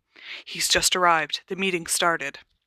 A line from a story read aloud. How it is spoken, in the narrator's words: whispered urgently